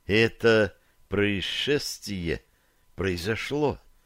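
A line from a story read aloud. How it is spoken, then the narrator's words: Slow, deliberate words. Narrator (Russian): ответила она, наконец, медленно выговаривая слова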